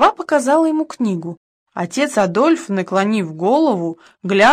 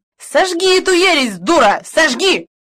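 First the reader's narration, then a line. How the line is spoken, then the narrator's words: Furious shouting. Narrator (Russian): в бешенстве крикнул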